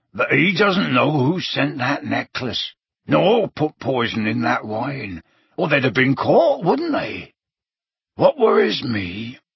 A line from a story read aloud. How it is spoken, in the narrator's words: said Hagrid, lowering his voice